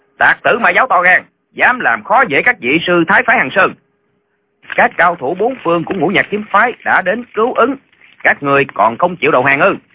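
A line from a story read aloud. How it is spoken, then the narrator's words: Shouting while running. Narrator (Vietnamese): Lệnh Hồ Xuân vừa quát vừa chạy xuống sơn cốc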